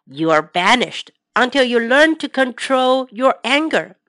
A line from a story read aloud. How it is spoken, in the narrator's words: said Farmer Haggerty firmly